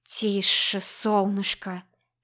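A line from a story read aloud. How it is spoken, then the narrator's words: Soothing whisper. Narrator (Russian): шепнул успокаивающе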